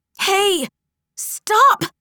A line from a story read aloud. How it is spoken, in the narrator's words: yelled Minnie